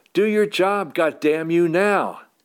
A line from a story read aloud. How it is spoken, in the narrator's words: Lita is screaming into my face